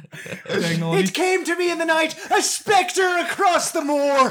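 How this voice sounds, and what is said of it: Put-on Irish accent. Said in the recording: “You should have done the Irish accent on every one of these”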